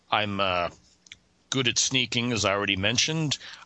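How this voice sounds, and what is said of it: Deep character voice. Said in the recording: “As you can see, I have a deep voice.”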